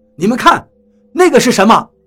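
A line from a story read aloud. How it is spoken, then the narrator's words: Startled, frightened cry. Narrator (Chinese): 突然，有个人猛地一惊，惊恐地叫道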